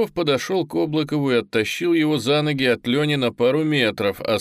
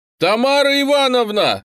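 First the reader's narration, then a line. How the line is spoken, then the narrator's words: Sudden shout. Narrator (Russian): неожиданно заорал Дарвин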